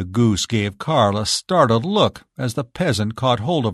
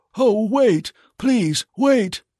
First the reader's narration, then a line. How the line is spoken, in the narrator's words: cried Carl, as all his courage fled from him